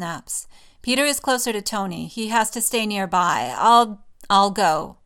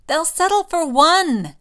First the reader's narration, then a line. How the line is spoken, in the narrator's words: Lily groans